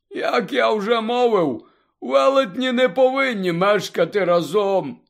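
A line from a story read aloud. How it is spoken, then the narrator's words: Sad explanation. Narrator (Ukrainian): сумно пояснив Гегріт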